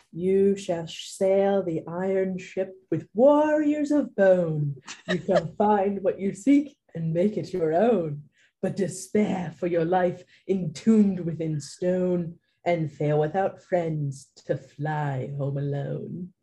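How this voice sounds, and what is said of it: Dramatic oracle character voice. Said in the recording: “your fun oracle voice ... the oracle voice”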